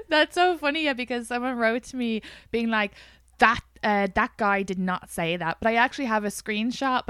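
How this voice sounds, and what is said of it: Strong Irish accent. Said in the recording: “your accent has been dialed all the way up ... talking to your family in Ireland”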